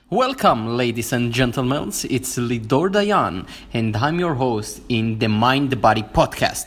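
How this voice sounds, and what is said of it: Jewish-accented English. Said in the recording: “with the sexy Jewish accent”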